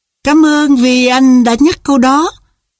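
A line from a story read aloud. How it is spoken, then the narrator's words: Joyful exclamation. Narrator (Vietnamese): Đạo Tái reo lên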